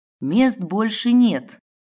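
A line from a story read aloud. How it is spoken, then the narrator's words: Hostile words through teeth. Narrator (Russian): процедила, едва ли не оскалившись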